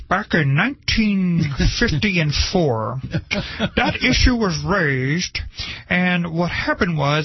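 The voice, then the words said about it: Imitates another person's voice. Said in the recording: “my best John Dingell impression”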